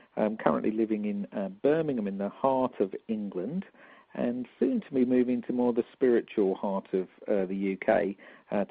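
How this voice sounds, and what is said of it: London accent. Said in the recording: “obviously I'm a Londoner. You can tell from my London accent, no doubt.”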